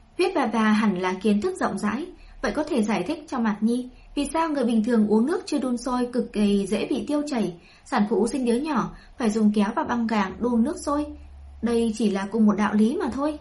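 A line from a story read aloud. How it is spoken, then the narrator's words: Smiling. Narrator (Vietnamese): Tây Lương Mạn mỉm cười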